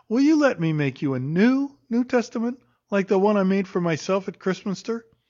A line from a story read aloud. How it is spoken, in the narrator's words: said brightly